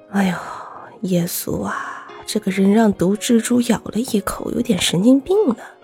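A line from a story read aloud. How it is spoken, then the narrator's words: Low voice. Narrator (Chinese): 神父低声地说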